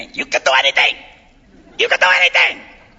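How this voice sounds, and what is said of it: Puerto Rican accented mother's voice. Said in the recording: “my Puerto Rican mother with her accent”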